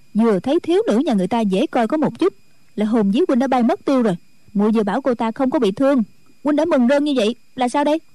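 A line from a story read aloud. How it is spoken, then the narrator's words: Resentful village girl. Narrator (Vietnamese): Thôn nữ hậm hực nói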